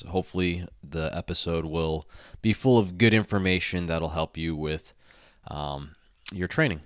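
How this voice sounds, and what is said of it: Congested, nasal voice. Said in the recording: “apologize for my voice ... a little bit of nasty sinus congestion ... if I sound a little bit nasally”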